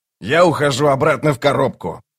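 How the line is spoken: Grumbling. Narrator (Russian): проворчал Локон

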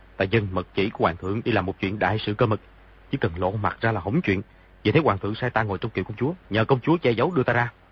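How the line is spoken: Lowered voice. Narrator (Vietnamese): Di Tiểu Bảo hạ giọng nói

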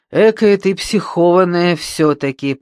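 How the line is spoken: Low booming drone. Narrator (Russian): прогудела

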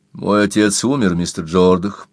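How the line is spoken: Said calmly. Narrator (Russian): спокойно сказал Квентин

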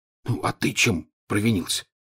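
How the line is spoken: Whispered question. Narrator (Russian): шепотом спросил Рон

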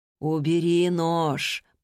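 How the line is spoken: Deep husky female voice. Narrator (Russian): проговорил глубокий, хрипловатый женский голос

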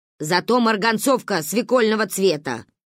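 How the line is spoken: Amused snort. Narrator (Russian): хмыкнула Ба

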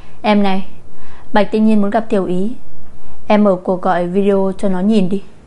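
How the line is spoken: Smiling speech. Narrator (Vietnamese): Cố Nhã Dung mỉm cười nói

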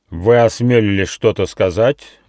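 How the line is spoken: Menacing growl. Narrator (Russian): грозно прорычал Кривой Клык

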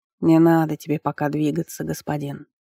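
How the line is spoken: Soft, gentle. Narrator (Russian): мягко проговорил жрец

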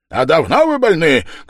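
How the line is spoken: Shouted. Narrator (Russian): крикнул Илья Петрович с своего места

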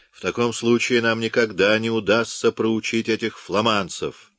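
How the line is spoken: Exclamation. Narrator (Russian): воскликнул Карл де Ламарш, младший брат короля

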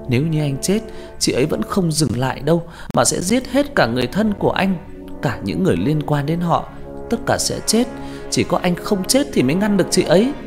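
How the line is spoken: Shrill warning scream. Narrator (Vietnamese): Huyên rú lên, giọng nói càng cao vút như cảnh báo

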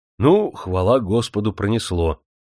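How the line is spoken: Relieved sigh. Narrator (Russian): облегченно вздохнул он

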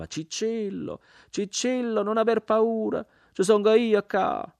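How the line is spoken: Old woman screaming. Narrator (Italian): Ogni tanto la vecchia urlava

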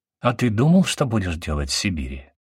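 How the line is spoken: Plain. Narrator (Russian): спросила Натаха

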